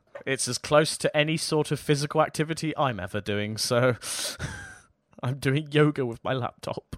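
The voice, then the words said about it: Strained, slightly hoarse voice. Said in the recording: “my voice is a little bit shot ... losing my voice”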